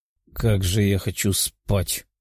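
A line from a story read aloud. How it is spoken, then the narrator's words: Soldier's grumble. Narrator (Russian): проворчал один из солдат инков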